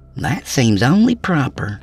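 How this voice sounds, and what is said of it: Hokey Old West accent. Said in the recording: “with a hokey Old West accent”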